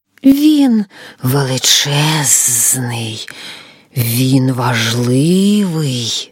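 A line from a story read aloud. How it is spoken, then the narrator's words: Hissing snake. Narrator (Ukrainian): Змія прошипіла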